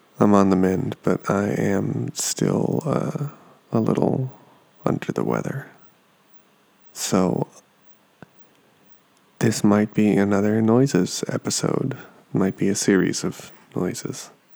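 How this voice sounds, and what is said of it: Sick-sounding voice. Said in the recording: “hear it in my voice ... I have actually been sick this past week”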